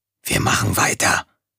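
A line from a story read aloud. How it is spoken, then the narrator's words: Whispered. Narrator (German): flüsterte er Tom-Tom zu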